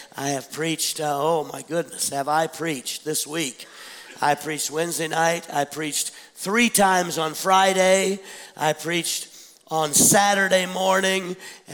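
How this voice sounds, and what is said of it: Rough, congested voice. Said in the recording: “You can tell by listening to me that my voice is a little rough today... with a sinus issue”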